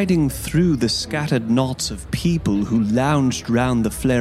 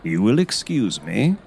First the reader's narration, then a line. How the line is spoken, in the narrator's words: said Holmes blandly